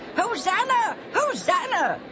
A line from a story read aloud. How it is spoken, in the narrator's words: they cried